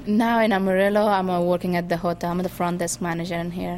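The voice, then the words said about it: Afghan-accented English. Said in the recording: “he was asking me where my accent from, and I said, I'm from Afghanistan”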